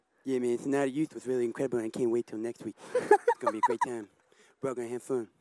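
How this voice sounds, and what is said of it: Imitates another person's voice. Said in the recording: “put him on the spot to do a Mike Tyson impression ... Live impersonation ... you said that you could do impressions”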